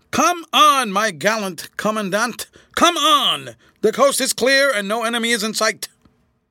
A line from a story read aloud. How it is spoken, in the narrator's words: he shouted at the top of his voice